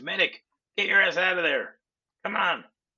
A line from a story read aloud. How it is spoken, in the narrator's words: another guy that standing outside, and he screams